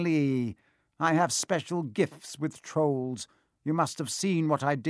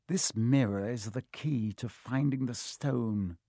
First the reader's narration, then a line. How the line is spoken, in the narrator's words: Quirrell murmured